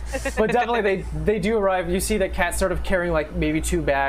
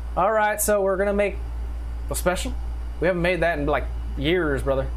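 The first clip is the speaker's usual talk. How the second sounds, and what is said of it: Put-on Southern American accent. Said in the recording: “I forgot to give him the southern accent, but so here we go.”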